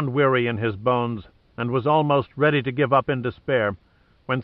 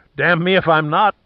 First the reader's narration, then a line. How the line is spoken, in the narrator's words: Pitt came back, laughing